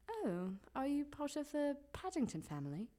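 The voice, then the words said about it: Put-on London accent. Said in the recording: “I've been practicing my London accent. ... Do your London accent.”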